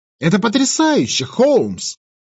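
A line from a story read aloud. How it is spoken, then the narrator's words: Exclaimed. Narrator (Russian): Воскликнул я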